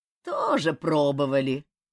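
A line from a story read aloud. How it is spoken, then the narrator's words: Creaky old man's voice. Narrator (Russian): проскрипел сморщенный старичок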